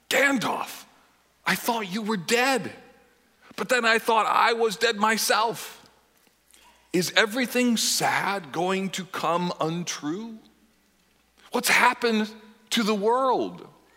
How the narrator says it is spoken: he gasped

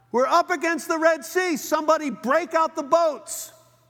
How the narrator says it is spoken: someone yells out

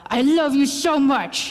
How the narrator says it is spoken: When you get mad at your kid, you growl

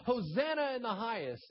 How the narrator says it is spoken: they shouted

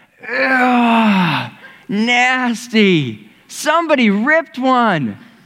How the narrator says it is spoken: somebody would shout out

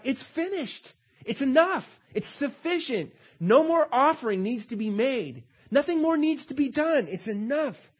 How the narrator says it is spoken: On the cross, Jesus cried out

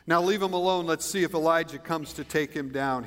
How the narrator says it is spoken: he said

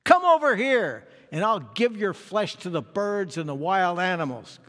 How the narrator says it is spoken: Goliath yelled

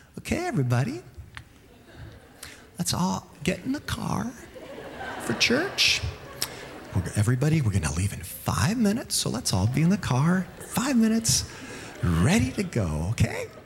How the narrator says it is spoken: Saying sweetly

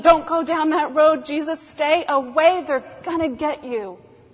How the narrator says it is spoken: Lazarus is standing outside of a horror film yelling

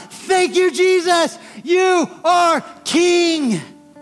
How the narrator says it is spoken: We're gonna shout

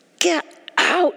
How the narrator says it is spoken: Pharaoh shouted

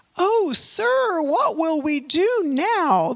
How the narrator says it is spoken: the young man cried to Elisha

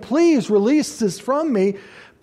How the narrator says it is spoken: pleading, saying

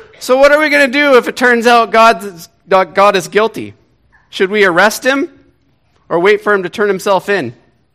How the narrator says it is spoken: he bellows to himself in laughter

